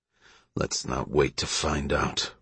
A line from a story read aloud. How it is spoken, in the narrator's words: Russell grunted